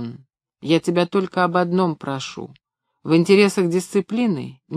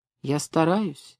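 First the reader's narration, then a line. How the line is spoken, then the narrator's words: Sad. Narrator (Russian): грустно сказал Максим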